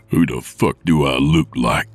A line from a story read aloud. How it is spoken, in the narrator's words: Nick growled